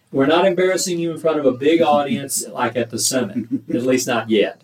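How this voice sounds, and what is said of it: East Texas twang accent. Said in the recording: “East Texas Twang”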